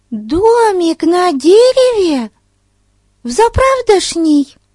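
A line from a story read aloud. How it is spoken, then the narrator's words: Excited exclamation. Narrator (Russian): В восторге воскликнула Бетси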